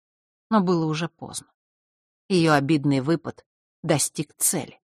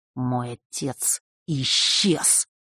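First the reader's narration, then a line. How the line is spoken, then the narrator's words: Angry, through clenched teeth. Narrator (Russian): процедил он, сверкая глазами от гнева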